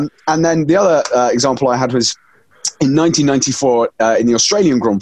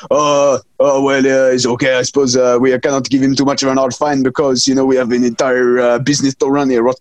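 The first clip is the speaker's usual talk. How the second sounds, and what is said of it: Exaggerated put-on French accent. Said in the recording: “It's a French organization, I believe. So that's my worst and most offensive accent.”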